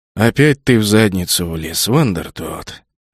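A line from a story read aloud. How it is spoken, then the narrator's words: Tired captain speaking. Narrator (Russian): устало проговорил капитан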